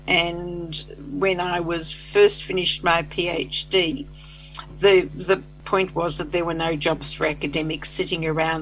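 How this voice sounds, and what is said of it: Australian accent. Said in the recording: “I'm Australian, as people will hear from my accent”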